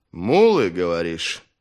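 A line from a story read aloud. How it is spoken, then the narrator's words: Menacing question. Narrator (Russian): грозно переспросил Три Дуба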